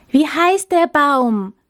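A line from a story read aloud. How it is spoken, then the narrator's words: Hopeful, expectant shouting. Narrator (German): schrien sie voller Hoffnung und Erwartung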